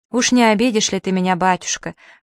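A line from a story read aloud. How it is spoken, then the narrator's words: Falsely tragic plea. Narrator (Russian): фальшиво-трагичным тоном попросил эпилептик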